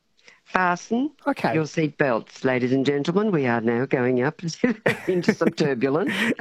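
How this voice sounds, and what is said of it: Regional Australian accent. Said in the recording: “this borderland accent”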